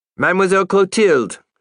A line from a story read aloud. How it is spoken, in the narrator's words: shouted Giovanni